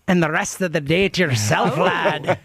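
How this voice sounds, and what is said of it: Put-on accent, just okay. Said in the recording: “Go for the accent, though. ... I'm not as good at it. ... That was good. ... It was okay.”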